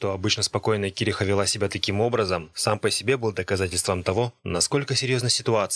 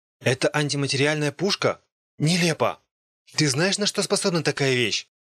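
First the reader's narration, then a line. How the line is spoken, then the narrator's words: Shouted. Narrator (Russian): Кириха крикнула на нее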